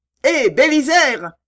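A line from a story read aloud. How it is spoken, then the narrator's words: Shouted. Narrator (French): cria Jack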